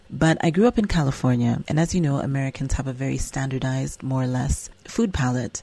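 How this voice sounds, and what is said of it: American accent. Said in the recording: “you may detect an American accent because it is an American accent. Slightly, I think I've become a little bit more African street”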